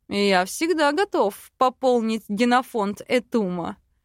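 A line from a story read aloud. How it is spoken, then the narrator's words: Dragon's smirking grunt. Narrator (Russian): хмыкнул дракон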